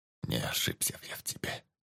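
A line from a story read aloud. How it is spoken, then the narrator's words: Tired whisper. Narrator (Russian): прошептал полковник, устало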